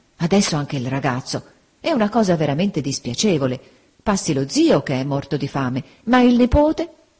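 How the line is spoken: Dismayed exclamation. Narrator (Italian): Don Mariano, con aria costernata, esclamò

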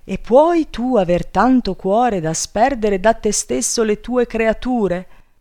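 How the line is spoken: Woman shouting. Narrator (Italian): gridò la moglie

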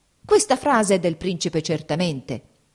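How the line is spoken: Exclaiming. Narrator (Italian): esclamò

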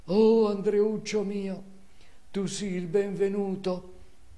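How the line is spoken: Tearful, broken voice. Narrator (Italian): lagrimando con voce alquanto rotta disse

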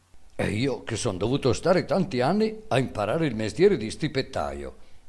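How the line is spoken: Boy's exclamation. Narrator (Italian): esclamò il ragazzo

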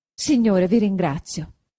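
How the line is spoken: Very happy exclamation. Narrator (Italian): esclamò Agnese doppiamente contenta

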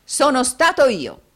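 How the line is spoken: Exclaimed. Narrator (Italian): esclamò Giovanni

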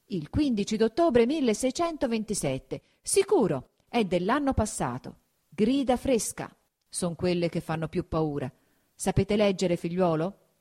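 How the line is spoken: Serious exclamation. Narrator (Italian): fatto un viso ancor più serio, esclamò

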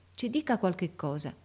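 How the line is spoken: Half-voiced. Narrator (Italian): De Rossi disse a mezza voce

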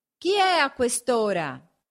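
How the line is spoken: Shout from window. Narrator (Italian): gridò una voce dalla finestra

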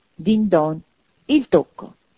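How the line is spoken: Triumphant exclamation. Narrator (Italian): esclamò Scrooge trionfante

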